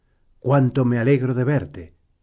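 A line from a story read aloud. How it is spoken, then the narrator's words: Exclaiming. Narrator (Spanish): exclamó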